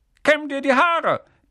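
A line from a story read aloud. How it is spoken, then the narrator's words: Barked morning greeting. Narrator (German): bellte er als Morgengruß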